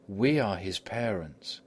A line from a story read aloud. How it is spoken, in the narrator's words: they exclaimed